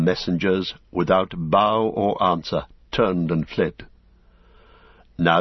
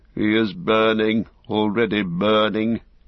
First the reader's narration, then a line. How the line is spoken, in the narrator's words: he said sadly